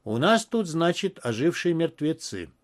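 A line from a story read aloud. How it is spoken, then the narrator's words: Eerily calm voice. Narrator (Russian): сказал Квинси, до устрашающего спокойным голосом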